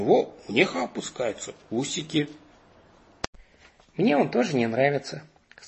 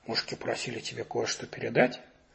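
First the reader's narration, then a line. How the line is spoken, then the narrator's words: Whispered. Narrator (Russian): прошептал он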